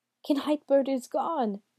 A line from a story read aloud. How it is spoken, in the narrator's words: the man wailed